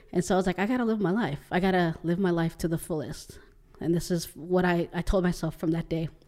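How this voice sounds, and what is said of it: Emotional, choked-up voice. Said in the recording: “Sorry, I'm getting emotional”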